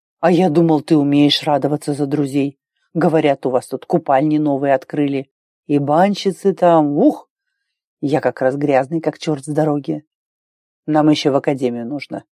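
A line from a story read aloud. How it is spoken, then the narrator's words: Grumbled. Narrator (Russian): буркнул Арн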